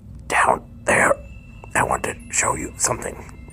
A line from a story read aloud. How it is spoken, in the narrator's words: Krampus croaked